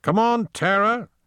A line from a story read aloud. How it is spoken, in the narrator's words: he shouted up the stairs for the third time